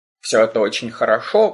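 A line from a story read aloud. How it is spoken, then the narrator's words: Grumbling. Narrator (Russian): пробурчал Бальк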